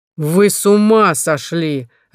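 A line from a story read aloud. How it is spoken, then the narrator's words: Barking. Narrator (Russian): рявкнул Журба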